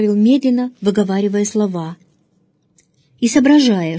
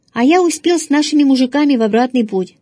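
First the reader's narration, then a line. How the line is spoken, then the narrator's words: Cheerful. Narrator (Russian): сказал отец весело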